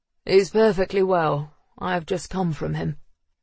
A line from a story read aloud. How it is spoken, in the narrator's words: said the man in the mask, his voice a deep rumble